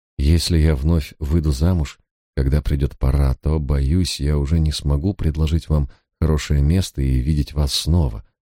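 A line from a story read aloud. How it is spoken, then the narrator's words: After a deep sigh. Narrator (Russian): Екатерина глубоко вздохнула и сказала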